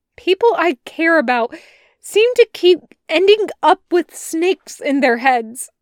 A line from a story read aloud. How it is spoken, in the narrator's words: blurts